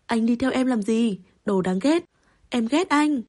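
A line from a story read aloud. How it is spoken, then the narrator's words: Screaming. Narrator (Vietnamese): Bằng Sảnh gào lên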